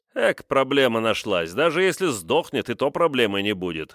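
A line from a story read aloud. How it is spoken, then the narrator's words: Dismissive snort. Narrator (Russian): хмыкнул адмирал Кузнецов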